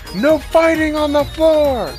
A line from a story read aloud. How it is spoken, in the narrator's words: Sincerity shouts out from across the bar